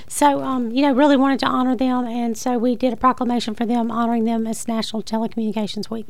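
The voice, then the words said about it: Strained, failing voice. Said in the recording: “As you can hear, I'm still losing my voice, unfortunately. So I was trying to save it”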